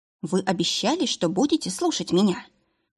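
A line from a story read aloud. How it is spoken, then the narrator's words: Whisper. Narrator (Russian): произнесла я шепотом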